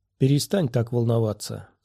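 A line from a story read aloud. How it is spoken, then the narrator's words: Calm. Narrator (Russian): сказала спокойно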